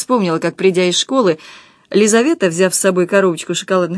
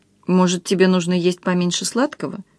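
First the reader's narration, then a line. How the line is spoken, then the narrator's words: Timid. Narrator (Russian): робко сказала я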